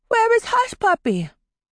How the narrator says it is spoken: Tidbit cried out in alarm

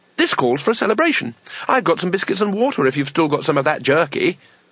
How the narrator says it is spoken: Two Flower said brightly

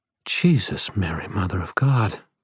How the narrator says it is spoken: Murphy breathed

